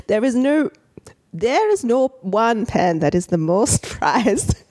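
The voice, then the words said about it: Put-on British regional accent, maybe Welsh. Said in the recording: “I don't know what accent that is. ... You went to like Welsh or something. ... He's going around the UK now.”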